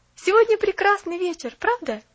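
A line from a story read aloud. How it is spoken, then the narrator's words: Cheerful, spoken aloud. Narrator (Russian): вслух Поллианна весело сказала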